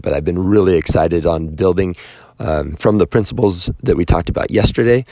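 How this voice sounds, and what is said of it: Hoarse, strained voice. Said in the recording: “My voice is still destroyed”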